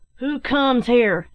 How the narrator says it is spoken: shouted one

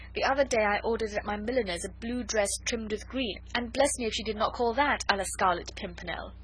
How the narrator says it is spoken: added gaily

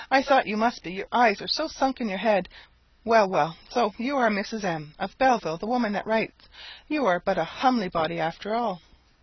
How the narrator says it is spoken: exclaimed she

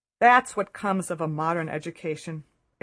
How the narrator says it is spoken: exclaimed the visitor

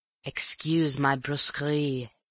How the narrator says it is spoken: he hissed

